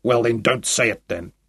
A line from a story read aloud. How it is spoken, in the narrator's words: he growled